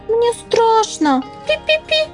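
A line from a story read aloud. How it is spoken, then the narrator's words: Frightened squeaking mouse. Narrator (Russian): запищал мышонок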